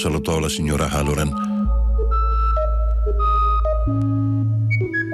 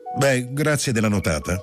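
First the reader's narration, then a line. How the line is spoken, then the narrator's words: Brusque. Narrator (Italian): Ned le disse in tono brusco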